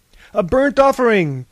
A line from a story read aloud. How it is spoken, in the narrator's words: cried Thales